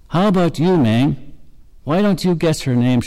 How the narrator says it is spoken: shouted the chief

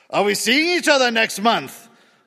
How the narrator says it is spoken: a man asked loudly

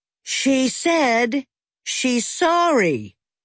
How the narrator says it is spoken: said Ferris's mother in a very loud voice

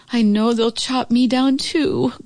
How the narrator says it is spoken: groaned the oak tree

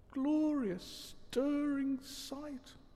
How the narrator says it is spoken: murmured Toad

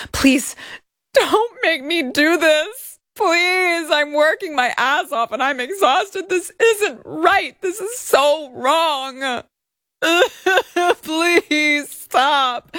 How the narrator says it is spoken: Plaintiff pleaded with Miss Hajini, stating

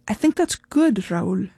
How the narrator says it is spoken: she finally said

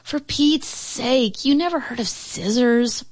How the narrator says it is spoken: Paulina cried

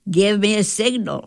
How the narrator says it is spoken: I'd holler

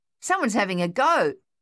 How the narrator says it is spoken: Thaddeus yelled

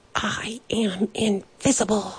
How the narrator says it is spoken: he whispered

